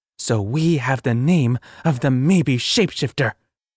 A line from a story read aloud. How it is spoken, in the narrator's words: Sophie growled